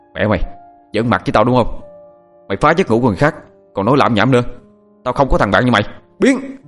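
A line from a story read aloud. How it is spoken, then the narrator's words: Angry shout. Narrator (Vietnamese): Thằng Hoàng quát lên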